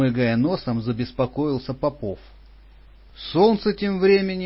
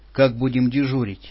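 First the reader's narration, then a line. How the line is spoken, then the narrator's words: Plain. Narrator (Russian): спросил я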